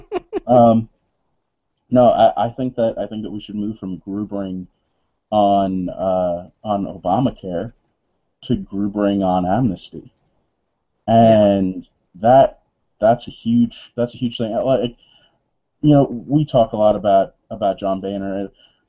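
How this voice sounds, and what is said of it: Voice with a cold. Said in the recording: “I've got a cold.”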